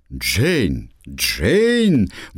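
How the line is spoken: Exclamation. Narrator (Russian): воскликнул лорд Рафтон

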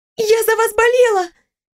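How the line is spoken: Girl's squeak. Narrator (Russian): пискнула девушка

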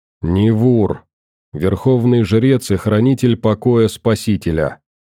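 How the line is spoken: Monotone. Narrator (Russian): ответил он монотонным голосом

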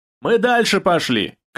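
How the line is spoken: Shout. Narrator (Russian): крикнул Костя

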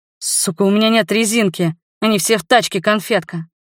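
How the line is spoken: Hoarse nervous laughter. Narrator (Russian): Я хрипло, нервно смеюсь

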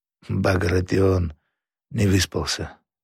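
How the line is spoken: Dead, flat voice. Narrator (Russian): Нестор, этот высокомерный князь, сказал мертвым голосом

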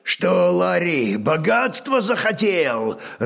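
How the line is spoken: Growling, Norse tongue. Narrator (Russian): рычал по-нормански хромой ладожанин

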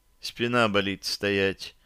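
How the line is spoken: Quiet complaint. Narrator (Russian): негромко пожаловалась она

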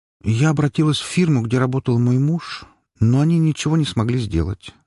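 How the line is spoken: Sad conclusion. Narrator (Russian): грустно закончила свой рассказ Света

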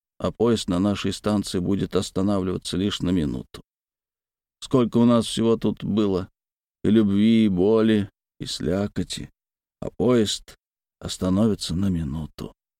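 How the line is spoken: Quiet. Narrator (Russian): тихо сказал Тумаркин

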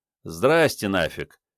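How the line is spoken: Cheerful, smiling. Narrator (Russian): весело разулыбился Мунлайт

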